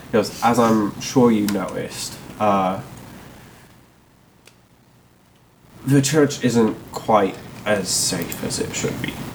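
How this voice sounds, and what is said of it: Put-on Barovian accent. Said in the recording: “why am I doing the Barovian accent?”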